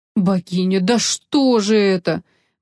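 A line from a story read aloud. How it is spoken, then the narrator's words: Groaning. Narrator (Russian): простонал полковник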